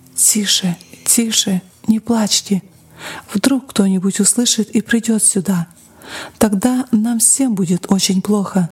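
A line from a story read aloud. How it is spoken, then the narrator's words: Frightened whisper. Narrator (Russian): Мать испуганно шептала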